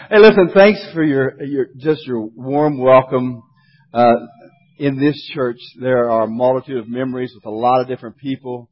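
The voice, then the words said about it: West Virginia twang accent. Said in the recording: “this West Virginia twang”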